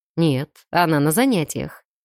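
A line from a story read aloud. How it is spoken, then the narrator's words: Calm male confirmation. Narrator (Russian): подтвердил мужчина, спокойно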